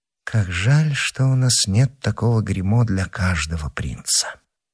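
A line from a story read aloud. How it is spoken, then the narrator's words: In an undertone. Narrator (Russian): сказала вполголоса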